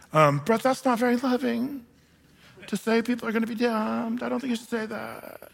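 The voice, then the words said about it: Put-on millennial vocal fry. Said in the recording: “Trying to use my millennial vocal fry. It's kind of a thing that people do. ... I can't do it very well, but that's the way they talk”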